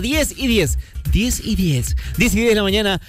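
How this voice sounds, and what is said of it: Robotic talking-clock voice. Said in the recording (Spanish): “un intento de, de imitación de como de este, robótica de reloj, pero me salió una cosa medio rara”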